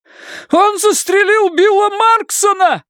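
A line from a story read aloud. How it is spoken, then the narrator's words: High, shrill scream. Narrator (Russian): завопил мужчина высоким, пронзительным голосом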